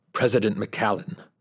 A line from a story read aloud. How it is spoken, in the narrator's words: Petrov hissed